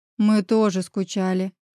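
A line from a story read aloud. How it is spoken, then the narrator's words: Hoarse reply. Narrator (Russian): Хрипло отозвался Мирон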